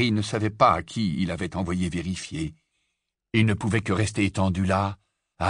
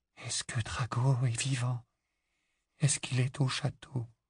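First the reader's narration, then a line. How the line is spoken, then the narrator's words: Barely audible whisper. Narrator (French): Le murmure était à peine audible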